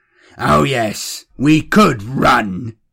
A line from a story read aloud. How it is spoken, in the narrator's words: snarled